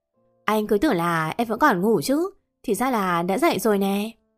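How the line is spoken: Smiling, clear confident. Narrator (Vietnamese): Thiên mỉm cười, dõng dạc nói

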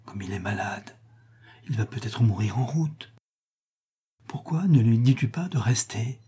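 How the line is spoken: Very quiet. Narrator (French): dit tout bas René

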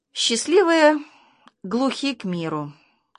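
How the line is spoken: Sighing mother. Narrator (Russian): вздохнула мама

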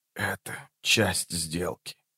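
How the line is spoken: Quiet. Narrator (Russian): тихо проговорил он

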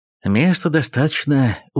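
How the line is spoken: Satisfied grunt under breath. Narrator (Russian): удовлетворенно хмыкнул про себя Ероха

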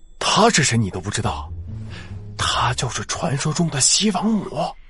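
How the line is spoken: Quiet muttering. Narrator (Chinese): 一个知情的路人小声嘀咕道

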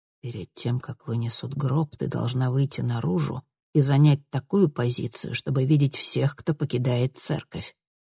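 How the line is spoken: Whisper in the ear. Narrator (Russian): шепнул он ей на ухо

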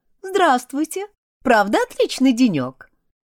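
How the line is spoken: Cheerful call. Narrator (Russian): она весело окликнула ее

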